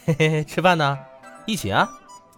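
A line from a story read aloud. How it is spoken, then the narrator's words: Laughing. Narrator (Chinese): 老朱对薛远笑道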